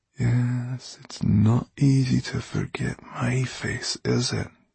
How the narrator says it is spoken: Dustfinger spoke so quietly that his voice was scarcely more than a whisper

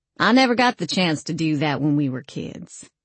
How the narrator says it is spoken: I sounded deliberately snarly when I said

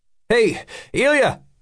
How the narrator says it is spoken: He called out

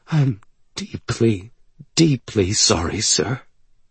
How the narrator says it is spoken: says, his voice trembling

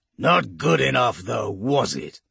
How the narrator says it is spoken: He snarls

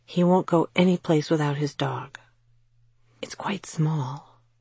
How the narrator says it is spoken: she added in a whisper

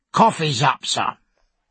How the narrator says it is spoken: he said crossly

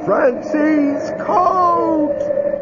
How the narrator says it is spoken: loud, bellowing

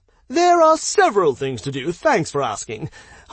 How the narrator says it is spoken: Hans exclaimed joyously, obviously uncaring of the somber mood

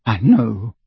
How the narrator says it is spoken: said Ginny, and her voice broke

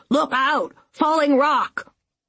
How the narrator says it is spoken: Uncle William was shouting

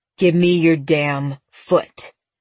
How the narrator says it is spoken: Seth growled

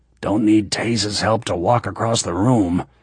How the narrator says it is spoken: he said with a grunt

